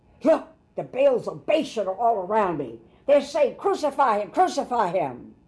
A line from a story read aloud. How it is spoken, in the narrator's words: he cried out